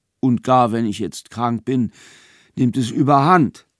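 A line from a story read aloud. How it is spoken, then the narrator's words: Tired yet proud. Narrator (German): sagte müde, aber doch auch stolz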